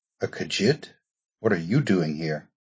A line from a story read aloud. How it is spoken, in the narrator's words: whispered a voice, Argonian